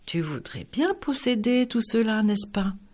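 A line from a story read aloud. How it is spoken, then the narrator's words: Interested sigh. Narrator (French): soupira-t-il plein d'intérêt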